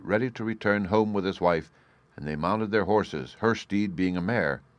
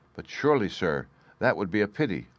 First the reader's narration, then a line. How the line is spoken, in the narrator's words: The farm servants wondered at this order and exclaimed